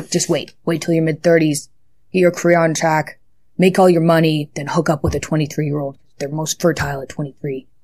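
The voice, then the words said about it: Imitates another person's voice. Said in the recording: “I'm not entirely sure who I was imitating there.”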